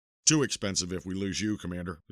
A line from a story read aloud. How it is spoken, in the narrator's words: the Colonel said